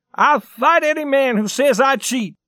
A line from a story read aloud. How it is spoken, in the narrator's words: cried Johnny